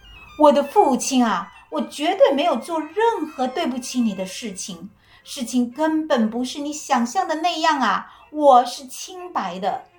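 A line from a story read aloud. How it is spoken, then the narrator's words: Loud self-defense. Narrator (Chinese): 希波吕托斯大声地为自己辩护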